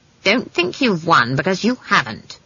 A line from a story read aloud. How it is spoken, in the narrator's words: she snapped